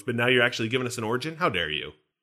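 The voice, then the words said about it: Sarcastic mock outrage. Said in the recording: “That was sarcasm,”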